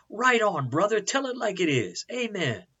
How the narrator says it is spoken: they screamed

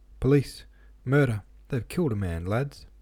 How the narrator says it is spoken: the smith shouted in a tearful voice

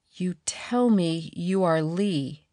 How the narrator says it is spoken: began slowly, hesitantly, as though the words were literally forced from her against her will

